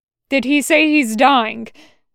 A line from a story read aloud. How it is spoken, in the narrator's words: CT-21/3777 asked too loudly